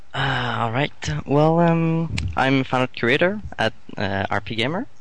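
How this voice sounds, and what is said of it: Speaks with a distinctive accent. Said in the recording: “I like his mm-hmm. accent.”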